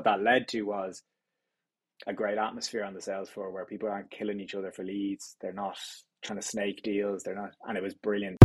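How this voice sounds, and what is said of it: Dublin Irish accent. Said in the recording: “I'm detecting from your accent that you were born in the Greater Dublin area”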